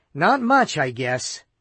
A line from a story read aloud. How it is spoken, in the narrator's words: Cassidy admitted gloomily